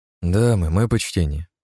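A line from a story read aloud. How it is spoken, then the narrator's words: Soft greeting. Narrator (Russian): мягко поприветствовал я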